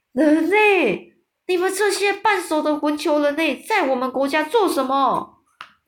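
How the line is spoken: Giant roaring. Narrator (Chinese): 吞食巨人大叫

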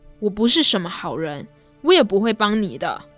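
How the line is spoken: Furious and stern. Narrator (Chinese): 辛德勒勃然大怒，厉声地说道

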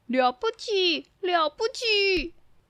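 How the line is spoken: Many shouting together. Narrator (Chinese): 其他的动物也都拍起手来，并且都大喊

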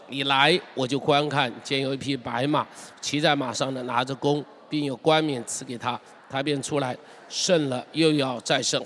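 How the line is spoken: Thunderous voice. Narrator (Chinese): 声音如雷说

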